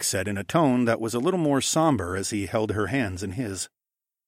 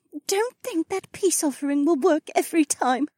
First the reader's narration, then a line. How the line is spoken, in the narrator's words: the Oryx woman said with a laugh that turned into a sob at the end